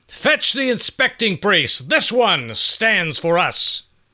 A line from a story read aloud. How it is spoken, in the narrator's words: In that booming voice of his, Issachar demanded, and loudly